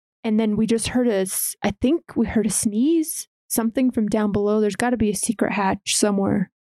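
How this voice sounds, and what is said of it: Whispering. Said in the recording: “So that was my whisper.”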